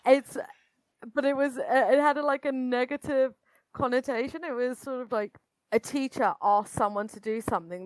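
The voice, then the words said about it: British accent. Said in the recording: “you can tell probably from my accent that I'm British”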